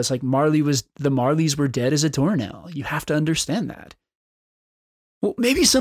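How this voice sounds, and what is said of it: Usual voice. Nothing is said of it.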